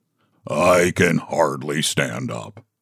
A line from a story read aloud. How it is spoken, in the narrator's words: grumbled the donkey